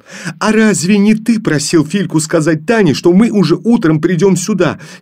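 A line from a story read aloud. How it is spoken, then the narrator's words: Angry reply. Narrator (Russian): сердито ответила Женя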